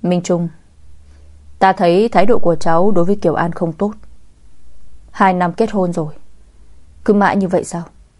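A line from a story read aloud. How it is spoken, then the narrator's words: Cold indifferent voice. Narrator (Vietnamese): một giọng nói lạnh lùng thờ ơ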